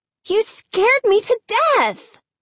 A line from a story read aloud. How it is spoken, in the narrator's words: Hannah cried